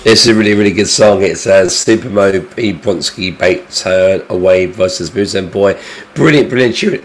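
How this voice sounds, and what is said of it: Hoarse, congested voice with a cold. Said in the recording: “I sound dreadful. I've got a cold, I've got a sore throat”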